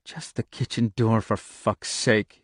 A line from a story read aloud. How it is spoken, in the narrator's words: he muttered raggedly